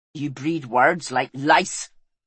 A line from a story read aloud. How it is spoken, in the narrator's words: snapped Fel, still rattled